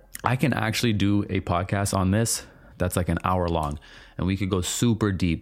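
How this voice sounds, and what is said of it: Raspy voice. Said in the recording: “when my voice isn't so raspy”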